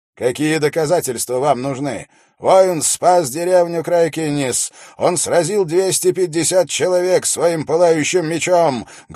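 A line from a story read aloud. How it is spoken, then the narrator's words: Loud. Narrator (Russian): громко сказал он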